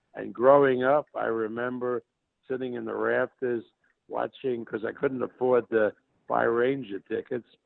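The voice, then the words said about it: New York Brooklyn accent. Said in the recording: “you can tell by my accent that I'm a New York guy, actually a Brooklyn guy”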